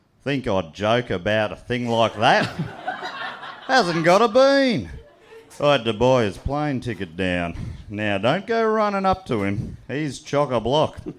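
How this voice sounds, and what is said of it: Put-on Australian accent. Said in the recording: “do you need me to do an Australian accent for it? ... the Aussier, the better ... I'll do my Australian one for you tonight”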